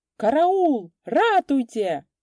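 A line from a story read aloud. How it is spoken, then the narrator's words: Panicked yelling. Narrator (Russian): завопил старшина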